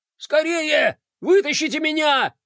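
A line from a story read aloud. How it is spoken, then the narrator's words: Shouting. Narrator (Russian): кричал он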